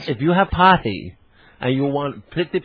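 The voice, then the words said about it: Put-on Charlie Chan movie accent. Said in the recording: “I sound like my wife's been watching these old Charlie Chan movies... Mr. Chan”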